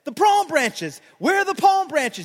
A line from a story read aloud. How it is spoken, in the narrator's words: He shouted